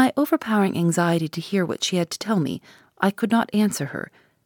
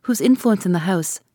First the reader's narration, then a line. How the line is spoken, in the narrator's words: I answered impatiently